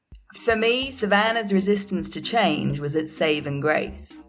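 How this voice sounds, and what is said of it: Put-on American Southern accent. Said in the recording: “I've got another accent for you coming up ... this time we're going to the south, because we're going to Savannah”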